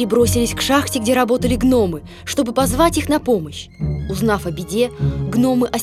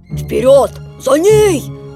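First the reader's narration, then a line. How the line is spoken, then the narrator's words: Grumpy shout. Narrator (Russian): закричал ворчун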